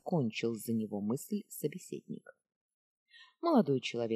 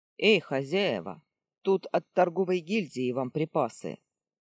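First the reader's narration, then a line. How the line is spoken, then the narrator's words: Loud call from entrance. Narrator (Russian): громко сказал он от входа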